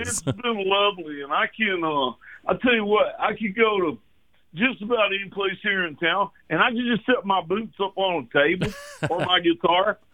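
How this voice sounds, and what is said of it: Slight Texan accent. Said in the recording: “the little accent that you have”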